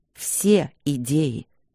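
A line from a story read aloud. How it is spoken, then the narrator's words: Menacing low voice. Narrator (Russian): повторил Демьян грозно, низко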